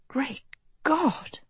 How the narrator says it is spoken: She breathed

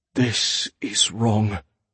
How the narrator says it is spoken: Manfred muttered

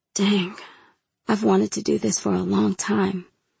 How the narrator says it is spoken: he breathed

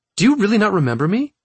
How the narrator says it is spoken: as though she had been holding her breath, she exclaimed

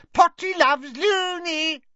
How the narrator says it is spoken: cackling and shrieking

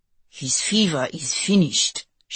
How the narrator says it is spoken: Schmidt murmured, as though desperate to elicit a response

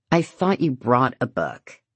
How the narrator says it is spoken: she says coldly

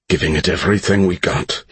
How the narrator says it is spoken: he replied, struggling to keep his voice composed

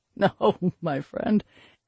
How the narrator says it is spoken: Grednell laughed from his belly

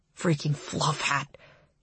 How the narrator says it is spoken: he mutters

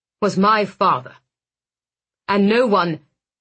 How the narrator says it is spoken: he snapped

